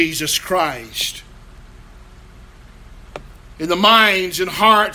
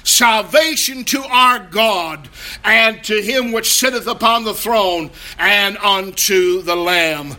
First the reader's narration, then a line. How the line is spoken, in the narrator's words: they are shouting